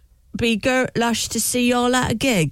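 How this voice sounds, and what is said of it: Put-on regional accent. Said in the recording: “That's actually a good accent you got there”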